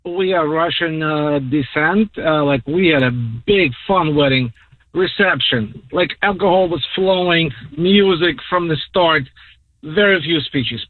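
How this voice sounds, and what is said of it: Russian accent. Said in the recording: “shout out to you being Russian ... I love your accent.”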